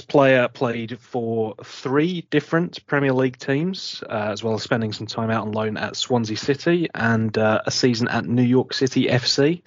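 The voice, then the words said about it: English Essex accent. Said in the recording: “my very distinctive accent ... an Essex boy, like me”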